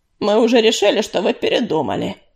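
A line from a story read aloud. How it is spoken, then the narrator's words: Displeased grumble. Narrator (Russian): недовольно проворчал Чернохват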